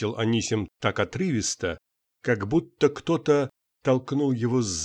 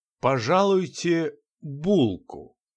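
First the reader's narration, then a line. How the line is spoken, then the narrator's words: Slow. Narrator (Russian): медленно проговорил Иван Афанасьич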